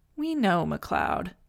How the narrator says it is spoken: Amanda said sleepily

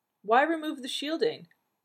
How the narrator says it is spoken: Someone called out from the back of the lecture hall

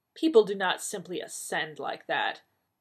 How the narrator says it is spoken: Maida said in an icy voice

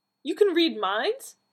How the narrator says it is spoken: Donna exclaimed

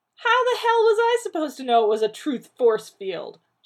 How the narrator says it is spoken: barked

